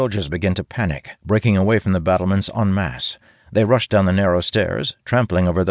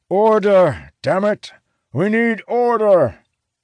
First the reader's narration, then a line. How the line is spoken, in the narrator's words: bellowing commands as loudly as he can muster